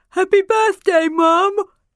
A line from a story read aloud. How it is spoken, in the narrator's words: Tom interrupted, walking into the kitchen and yawning